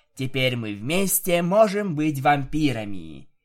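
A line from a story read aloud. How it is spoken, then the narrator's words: Laughing. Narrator (Russian): Я посмеялась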